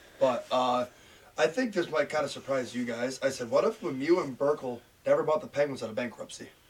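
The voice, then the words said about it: Scratchy, slightly lost voice. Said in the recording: “my voice is a little scratchy. I lost it the other night.”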